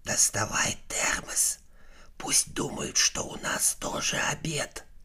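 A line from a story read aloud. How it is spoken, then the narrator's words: Whisper. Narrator (Russian): прошептал бабаке Майк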